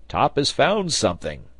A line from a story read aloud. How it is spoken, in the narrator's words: cried Neb